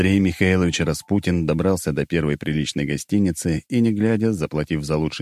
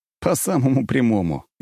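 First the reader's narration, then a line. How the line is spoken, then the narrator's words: Short laugh. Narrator (Russian): я коротко хохотнул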